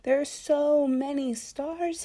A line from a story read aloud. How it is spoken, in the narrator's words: sighed